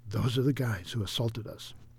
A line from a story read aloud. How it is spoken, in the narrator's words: David whispered